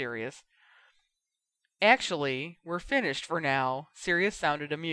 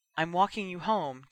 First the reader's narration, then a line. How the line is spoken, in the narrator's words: Jinny said breathlessly